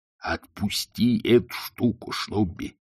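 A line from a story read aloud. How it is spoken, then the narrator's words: Hissed. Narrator (Russian): прошипел Колон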